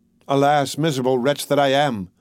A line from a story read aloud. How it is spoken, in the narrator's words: cried he